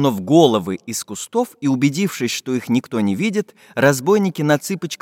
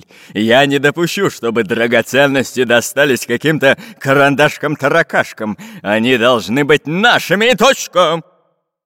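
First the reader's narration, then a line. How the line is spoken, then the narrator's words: Menacing bark. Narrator (Russian): грозно рявкнул он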